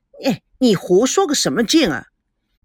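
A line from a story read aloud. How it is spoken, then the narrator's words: Sighing. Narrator (Chinese): 田心雨叹了口气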